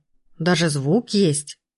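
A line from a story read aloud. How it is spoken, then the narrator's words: Respectful grunt. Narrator (Russian): уважительно хмыкнул Пирожков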